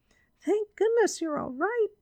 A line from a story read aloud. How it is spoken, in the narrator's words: cried Judy